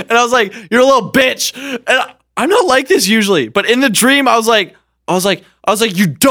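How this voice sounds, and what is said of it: Usual voice. Nothing is said of it.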